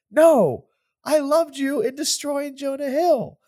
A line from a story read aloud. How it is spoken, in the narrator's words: Cameron screams